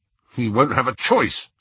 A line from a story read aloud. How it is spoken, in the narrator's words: said Ron fiercely